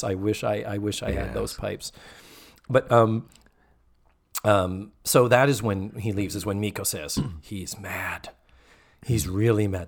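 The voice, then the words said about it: Worn-out, hoarse voice. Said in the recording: “My voice is so shot”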